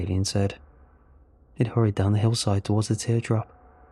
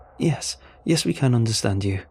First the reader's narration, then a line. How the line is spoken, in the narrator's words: he said in an excited tone